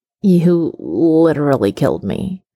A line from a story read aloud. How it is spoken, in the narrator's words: Stiles mumbles, not even bothering to spit Peter's hair out of his mouth